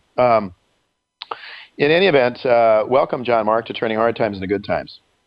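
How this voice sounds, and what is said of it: Hoarse congested voice with coughing. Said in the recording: “I apologize for my barking. ... I have a cold”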